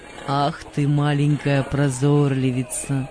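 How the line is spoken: Laughing father. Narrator (Russian): сказал отец, смеясь

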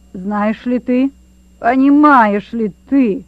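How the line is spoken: Menacing shout. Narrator (Russian): грозно закричал генерал

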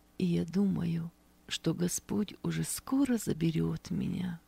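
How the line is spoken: Quiet but confident. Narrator (Russian): негромко, но уверенно произнесла она

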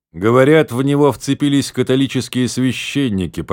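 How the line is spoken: Grumbling. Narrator (Russian): проворчал лорд Аутрэм

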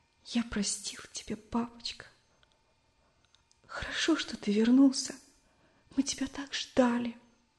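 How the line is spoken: Child's muffled sobbing whisper. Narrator (Russian): Мальчик уткнулся в жесткое отцовское плечо и шептал, всхлипывая

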